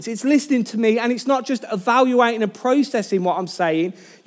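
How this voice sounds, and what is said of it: Birmingham English accent. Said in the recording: “my Birmingham accent”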